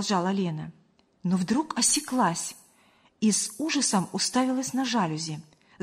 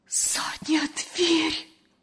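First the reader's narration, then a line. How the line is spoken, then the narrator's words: Horrified whisper. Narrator (Russian): с ужасом прошептала Лена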